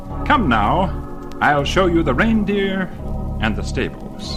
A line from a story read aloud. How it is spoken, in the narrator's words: He chuckled gaily, and then he said